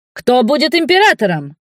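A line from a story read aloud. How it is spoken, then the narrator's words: Crowd shouting. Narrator (Russian): кричали из толпы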